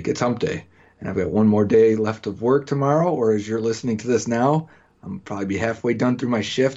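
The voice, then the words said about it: Excited, energetic, pumped-up voice. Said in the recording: “I am amped up this week... I am pumped. Jake, can you feel it? Can you hear it in my voice?”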